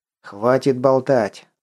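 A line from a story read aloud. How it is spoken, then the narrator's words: Said angrily. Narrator (Russian): зло произнес Лосев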